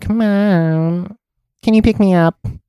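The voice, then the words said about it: Nasal, whiny voice. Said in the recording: “In that nasal voice.”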